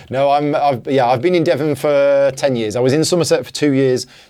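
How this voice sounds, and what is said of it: Northern English accent. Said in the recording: “I have a northern accent”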